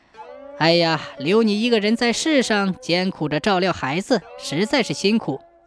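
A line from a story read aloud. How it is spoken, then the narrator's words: Smiling. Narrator (Chinese): 他来到妻子面前，微笑着说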